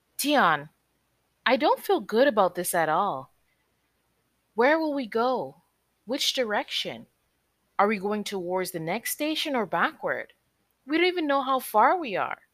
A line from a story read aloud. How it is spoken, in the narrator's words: Ciara exclaimed